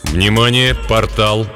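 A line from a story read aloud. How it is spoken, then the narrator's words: Calm announcement. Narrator (Russian): спокойно информировал капитан Хафт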